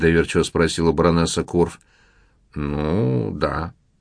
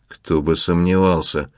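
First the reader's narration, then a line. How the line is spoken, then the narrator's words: Grumbled. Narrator (Russian): буркнул Ломов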